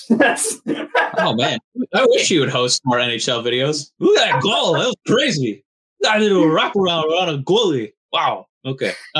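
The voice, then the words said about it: Bad impression of another person's voice. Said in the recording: “That was my bad impression of”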